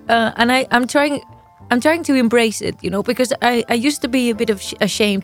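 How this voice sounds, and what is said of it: Catalan-accented English. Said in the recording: “the stupid Catalan English ... What is this accent? ... well, I have a funny accent”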